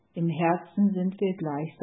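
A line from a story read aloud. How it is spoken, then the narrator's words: Plain. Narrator (German): sagte sie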